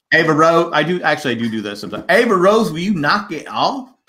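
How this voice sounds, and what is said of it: Put-on Southern accent. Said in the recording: “You gotta start doing it in the Southern accent.”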